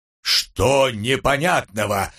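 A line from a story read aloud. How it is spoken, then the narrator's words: Barked. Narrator (Russian): рявкнул Умрун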